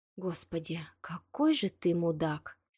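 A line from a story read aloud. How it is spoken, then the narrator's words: Hateful breathy exhale. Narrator (Russian): С ненавистью выдохнула Рита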